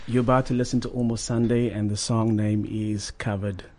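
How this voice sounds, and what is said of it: Announcer-style radio voice. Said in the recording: “I'm gonna go with my radio voice.”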